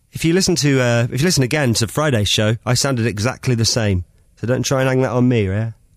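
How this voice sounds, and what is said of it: Rough, hoarse voice. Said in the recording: “My voice is a little bit rope today”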